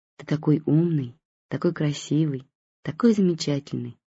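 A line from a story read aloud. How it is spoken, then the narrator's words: Sincere whisper. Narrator (Russian): шептала Наташа, и действительно в это верила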